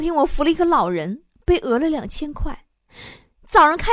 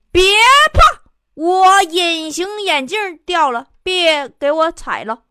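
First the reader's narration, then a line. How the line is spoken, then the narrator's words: Man shouting. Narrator (Chinese): 那男的又喊了一句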